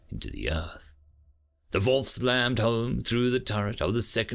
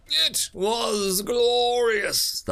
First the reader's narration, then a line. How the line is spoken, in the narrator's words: the hunter roared, beak clacking excitedly as the battle thrill of the simulated death ebbed away